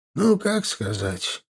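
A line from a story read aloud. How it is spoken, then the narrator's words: Sighing. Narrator (Russian): он вздохнул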